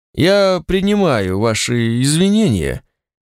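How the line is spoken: Dull muffled voice. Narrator (Russian): сказал Рикотарс глухо

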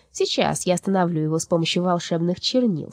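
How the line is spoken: Plain. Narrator (Russian): сказала бумажная душа

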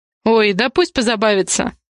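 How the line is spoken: Snort. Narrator (Russian): фыркнул Дэм

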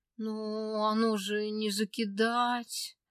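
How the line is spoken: Girl, plaintive hopeful drawl. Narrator (Russian): жалобно протянула девчонка, все еще надеясь на чудо

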